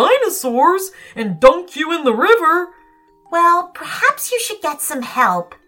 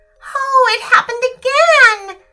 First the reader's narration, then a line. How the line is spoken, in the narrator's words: howled Ada